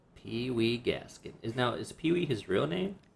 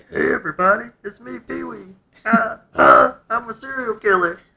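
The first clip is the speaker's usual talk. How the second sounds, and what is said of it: Imitates another person's voice, poorly. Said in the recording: “That was a bad impression”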